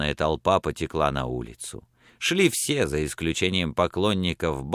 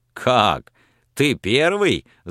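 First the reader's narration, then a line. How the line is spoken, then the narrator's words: Laughing. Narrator (Russian): засмеялся Пламенный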